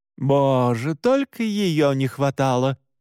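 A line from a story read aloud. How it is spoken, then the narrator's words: Groaning. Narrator (Russian): простонала Мора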